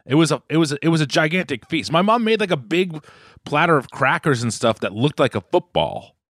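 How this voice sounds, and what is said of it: Strong Boston accent. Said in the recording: “My Boston accent's coming back too strong.”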